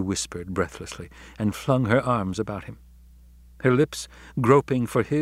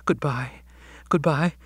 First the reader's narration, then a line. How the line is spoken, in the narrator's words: she stammered